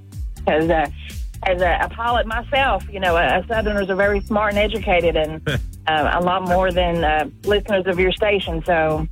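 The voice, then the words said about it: Southern American accent. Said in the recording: “I love your accent, ... by the way. ... I love ... your accent.”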